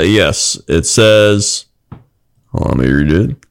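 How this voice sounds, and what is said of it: Usual voice. Nothing is said of it.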